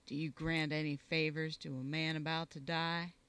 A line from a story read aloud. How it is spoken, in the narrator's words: said in a low voice